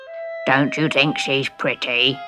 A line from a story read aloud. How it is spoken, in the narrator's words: The son, who was almost as ugly as his mother, just croaked in amazement